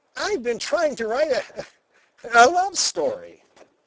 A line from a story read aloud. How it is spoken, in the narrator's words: he explained, laughing nervously